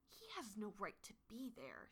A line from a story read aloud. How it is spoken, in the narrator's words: she hisses to Rosetail